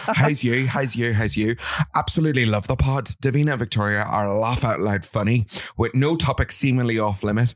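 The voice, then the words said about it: Put-on Northern Irish accent. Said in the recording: “I'm going to try and read this in a Northern accent”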